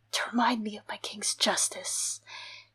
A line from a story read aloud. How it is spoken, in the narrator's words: he whispered through cracked lips